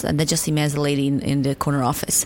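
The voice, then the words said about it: Bosnian accent. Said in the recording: “they obviously hear my accent and they say, oh, what's that from? Are you Polish? ... I said, no, I'm Bosnian.”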